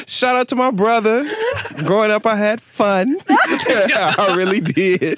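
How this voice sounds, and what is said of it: Imitates another person's voice. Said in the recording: “What is this accent? ... There's a video of a known commentator in the ballroom community”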